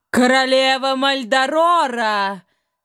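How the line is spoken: Triumphant royal shout. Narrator (Russian): Торжествующе прокричало ее величество

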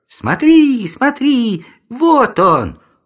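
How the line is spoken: Joyful yell. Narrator (Russian): Радостно завопила одна

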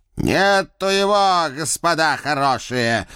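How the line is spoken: Loud shout. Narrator (Russian): громко прокричал он

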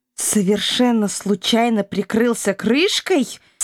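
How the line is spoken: Growling. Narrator (Russian): с рычанием прозрела Илона

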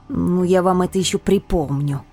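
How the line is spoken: Growling. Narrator (Russian): рычала я

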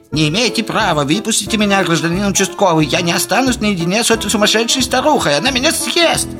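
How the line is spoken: Shrill, blunt voice. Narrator (Russian): визгливый голос прямолинейно сообщил

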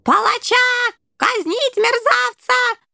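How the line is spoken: Rat general shrieking. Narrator (Russian): завизжал крысиный генерал

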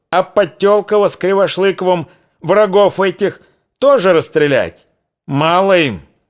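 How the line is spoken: Heated shout, old man. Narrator (Russian): Запальчиво крикнул плотный, престарелый казак

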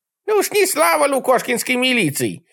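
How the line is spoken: Old woman's angry bark. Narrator (Russian): рявкнула на меня бабка

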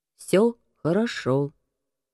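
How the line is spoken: Flat, colorless tone. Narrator (Russian): бесцветным тоном вымолвил Стив

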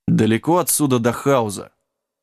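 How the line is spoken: Gloomy interruption. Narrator (Russian): мрачно перебил Джек

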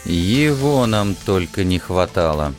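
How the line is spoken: Muttered through clenched teeth. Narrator (Russian): процедил сквозь зубы Алекс

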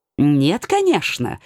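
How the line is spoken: Indignant. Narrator (Russian): возмущенно подскочил он

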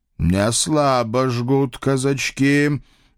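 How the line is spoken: Envious creature's howl. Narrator (Russian): завистливо взвыл кто-то двугорбый с длинными когтями

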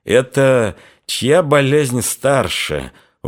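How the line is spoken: Muttered through gritted teeth. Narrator (Russian): уже сквозь зубы бормотнул казак

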